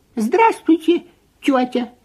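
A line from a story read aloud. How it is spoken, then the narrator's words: Squeaky. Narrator (Russian): пискнул Фип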